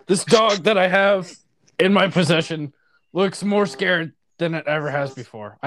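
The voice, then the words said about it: Poor imitation of another person's voice. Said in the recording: “I don't even sound like Alex Jones ... You're doing a terrible impression”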